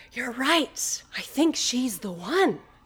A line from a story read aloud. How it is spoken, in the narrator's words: Spencer whispers over me to Lorraine